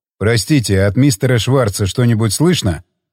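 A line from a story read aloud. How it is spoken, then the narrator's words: Plain question. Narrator (Russian): спросил Джефф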